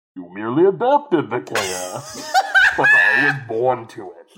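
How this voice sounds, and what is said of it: Bane impression. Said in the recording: “anyone can do a Bane ... that was still too intelligible ... got to aspirate into the mic a little bit more”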